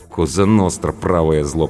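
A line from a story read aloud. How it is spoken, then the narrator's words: Mumbled grumble. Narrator (Russian): пробурчала Анка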